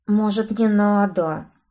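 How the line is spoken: Mumbled, hopeful plea. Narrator (Russian): промямлил подопытный, видимо, надеясь на женское милосердие

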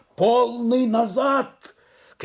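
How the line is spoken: Shouted. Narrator (Russian): кричали с мостика в машину

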